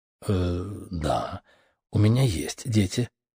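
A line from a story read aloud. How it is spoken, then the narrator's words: Hesitant, taken aback female reply. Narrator (Russian): запинаясь, ответила она, слегка обескураженная моим вопросом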